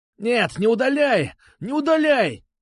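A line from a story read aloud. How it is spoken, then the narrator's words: Shouting. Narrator (Russian): кричал Бубин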